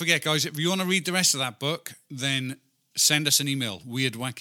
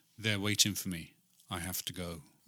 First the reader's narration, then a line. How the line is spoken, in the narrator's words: The child replied in a strange, emotionless voice